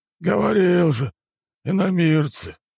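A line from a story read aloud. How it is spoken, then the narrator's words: Sigh. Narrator (Russian): вздохнул он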